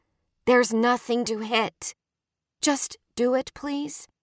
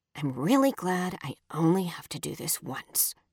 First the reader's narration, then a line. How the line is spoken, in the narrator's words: Trace mutters